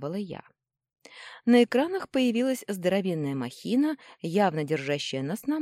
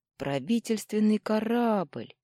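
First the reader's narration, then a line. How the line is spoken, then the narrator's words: Dejected voice. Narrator (Russian): упавшим голосом произнес Федя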